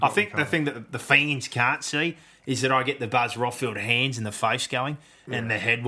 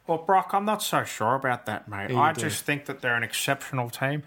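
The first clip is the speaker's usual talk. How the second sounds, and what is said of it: Imitates another person's voice. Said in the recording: “best Phil Rothfield impersonation”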